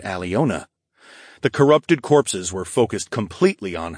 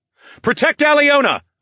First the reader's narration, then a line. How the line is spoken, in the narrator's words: bellowed